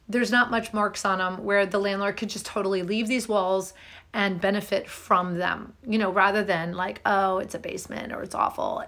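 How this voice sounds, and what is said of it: Strained voice, still recovering. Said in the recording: “I don't know if you can tell, my voice is still healing. ... I kind of did a number on it ... so that I didn't overdo and totally damage my voice ... in the final throes of healing”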